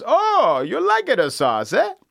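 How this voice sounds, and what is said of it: Mario-style Italian accent. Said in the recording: “do it a Mario accent”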